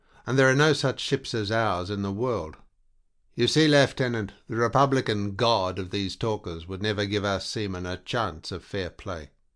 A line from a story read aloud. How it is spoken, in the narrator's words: he cried